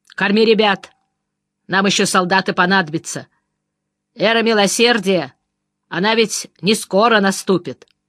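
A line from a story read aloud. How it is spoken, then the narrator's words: Stern. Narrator (Russian): сказал Шурке строго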